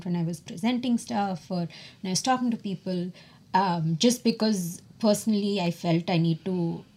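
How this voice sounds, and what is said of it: Speaks with a noticeable accent. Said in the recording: “fear of people not understanding me because of my accent ... I didn't want to change my accent”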